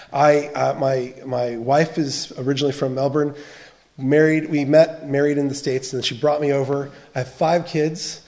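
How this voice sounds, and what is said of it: American accent. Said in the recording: “you can hear from the accent. I'm originally from the States ... when an American says this”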